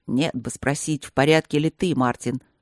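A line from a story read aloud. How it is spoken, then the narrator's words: Muttering. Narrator (Russian): бормотал друг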